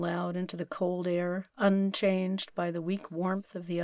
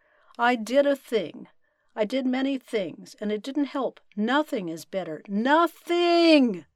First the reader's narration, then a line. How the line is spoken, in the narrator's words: yell